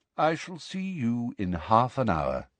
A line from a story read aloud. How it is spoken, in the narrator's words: said Dumbledore quietly